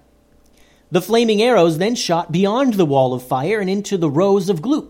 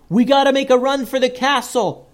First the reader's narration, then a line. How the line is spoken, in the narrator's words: yelled